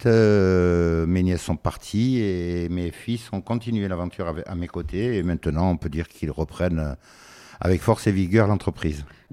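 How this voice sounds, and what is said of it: Niçois regional French accent. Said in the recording (French): “d'où le euh, joli accent ... le joli accent niçois. Enfin, je ne sais pas s'il est joli, mais en tout cas, euh, il existe.”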